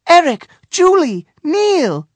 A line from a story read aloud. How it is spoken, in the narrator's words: cried Princess Kia, running over